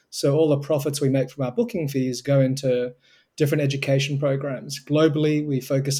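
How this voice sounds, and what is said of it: Australian accent. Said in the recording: “It started in Australia, as you can probably tell from my accent.”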